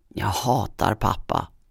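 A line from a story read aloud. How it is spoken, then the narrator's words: Angry tearful muttering, spat word. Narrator (Swedish): Hon spottade ut det sista ordet och muttrade argt genom tårarna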